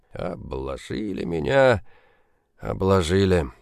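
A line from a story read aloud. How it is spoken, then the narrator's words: Hoarse voice in head. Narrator (Russian): забился в голове хриплый голос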